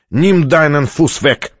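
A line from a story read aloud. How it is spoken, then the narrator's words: Growling. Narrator (Russian): прорычал немец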